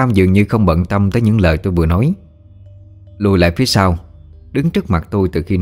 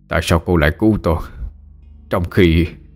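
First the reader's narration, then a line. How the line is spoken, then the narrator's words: Breathless, panting speech. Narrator (Vietnamese): Lão Tam thở hổn hển nói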